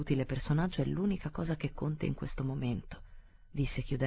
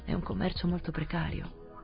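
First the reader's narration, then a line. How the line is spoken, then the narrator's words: Murmur. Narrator (Italian): mormorò il vice capo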